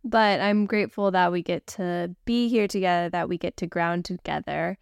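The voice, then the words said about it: Stuffy, congested voice. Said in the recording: “My voice might sound a little different today. I have a bit of those fall allergies slash whatever little bug is going around right now. So you get a little bit of fall stuffy voice”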